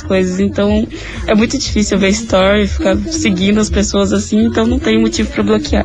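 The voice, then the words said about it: Hoarse voice. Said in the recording (Portuguese): “ainda tô rouca.”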